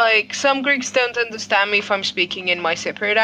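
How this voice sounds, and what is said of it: Usual voice. Nothing is said of it.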